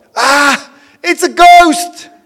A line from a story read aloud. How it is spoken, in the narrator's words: In their fear, they cried out